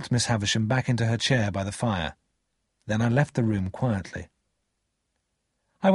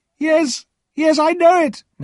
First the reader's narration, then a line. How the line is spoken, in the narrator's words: Miss Havisham cried